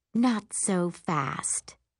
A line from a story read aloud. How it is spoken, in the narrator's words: Liana whispers into my ear